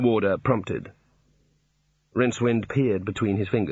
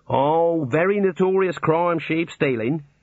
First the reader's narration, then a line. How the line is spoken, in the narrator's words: said the warder cheerfully